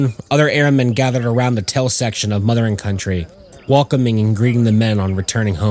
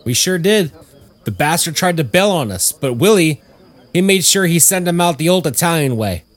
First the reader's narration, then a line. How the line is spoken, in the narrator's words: Tommy called out